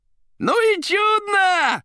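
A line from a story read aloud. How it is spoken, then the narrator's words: Yelling. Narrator (Russian): орал Коровьев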